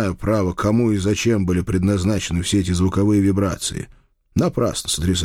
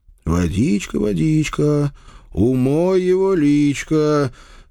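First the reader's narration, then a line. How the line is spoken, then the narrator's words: Singsong drawl. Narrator (Russian): Нараспев протянул я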